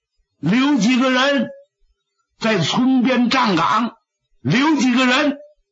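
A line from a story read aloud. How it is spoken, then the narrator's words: Breathless old man's urgent shout. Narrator (Chinese): 60多岁跑不动，在后头还紧喊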